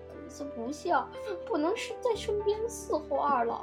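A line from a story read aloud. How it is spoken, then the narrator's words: Sobbing. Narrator (Chinese): 异人 抽泣着说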